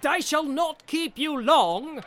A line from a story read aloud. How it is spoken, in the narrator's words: he cried